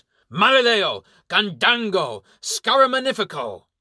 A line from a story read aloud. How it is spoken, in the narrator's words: He shouts